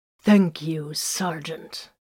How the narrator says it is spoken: Grimfang growled menacingly

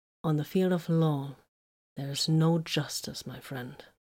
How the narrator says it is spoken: Vox said calmly

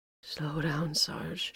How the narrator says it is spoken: she mumbled

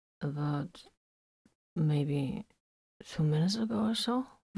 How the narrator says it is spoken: Vox said quietly

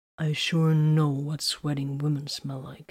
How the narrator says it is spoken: he mumbled

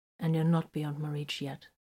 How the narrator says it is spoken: he said quietly

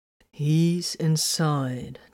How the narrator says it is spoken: answered slowly

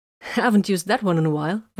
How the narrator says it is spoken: Vox said happily

